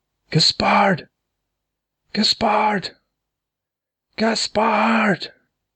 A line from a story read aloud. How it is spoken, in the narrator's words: And again Ulrich shouted